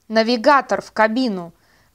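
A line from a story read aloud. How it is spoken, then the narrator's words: Shouting man. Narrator (Russian): крикнул Аларик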